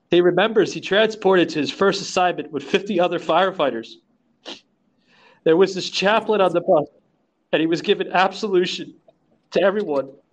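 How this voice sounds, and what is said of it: Tearful, emotional voice. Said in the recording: “I'm sorry for getting a little teary eyed”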